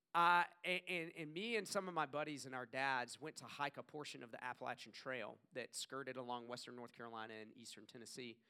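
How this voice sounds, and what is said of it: Southern US accent. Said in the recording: “I grew up in the South. I know you couldn't tell by my accent”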